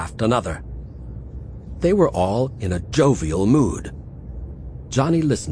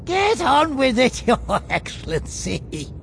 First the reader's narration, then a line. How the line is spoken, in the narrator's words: chuckled Faljapan